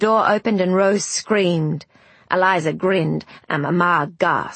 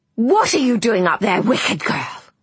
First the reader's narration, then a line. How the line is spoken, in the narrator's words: she hissed